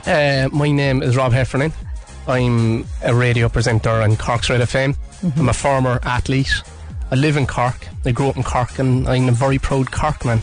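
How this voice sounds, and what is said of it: Strong Cork Irish accent. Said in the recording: “the Corkest man in Cork ... my accent's gone very flat, neutral now”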